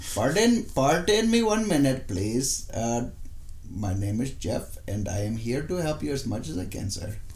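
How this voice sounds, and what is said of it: Put-on accent, sounds Russian. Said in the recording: “That was a pretty good accent. ... That was a pretty good Russian accent. ... I thought you did good with that Russian accent, bud. ... you've got a pretty good Indian accent. ... Thought it sounded Russian.”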